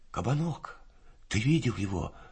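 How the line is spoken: Young man's whispered question. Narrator (Russian): шепотом спросил один из них, мальчик лет 19, простодушный на вид, с круглыми девичьими щеками

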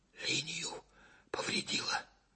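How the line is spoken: Whisper. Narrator (Russian): почему-то шепотом сказал Караваев

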